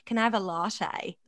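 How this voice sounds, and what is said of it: Australian accent. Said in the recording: “That's Australian.”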